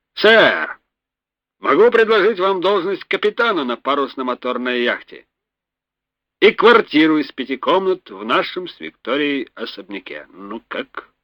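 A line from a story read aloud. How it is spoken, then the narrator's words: Deep bass voice. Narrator (Russian): сказал басом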